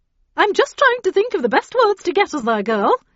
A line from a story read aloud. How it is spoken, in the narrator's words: she replied cheerfully